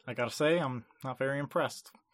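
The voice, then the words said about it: Bad George Lucas impression. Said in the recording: “a bad George Lucas impression”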